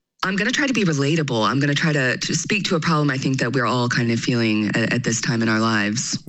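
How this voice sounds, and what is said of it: Mixed Southern American and British accent. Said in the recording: “I grew up in Memphis, Tennessee, but now I live in London, so my accent is a little bit all over the place”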